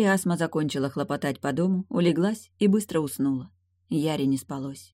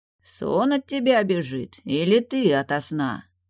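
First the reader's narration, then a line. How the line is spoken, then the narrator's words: Deep velvety bass. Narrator (Russian): густо и бархатно пробасил невидимый Далиль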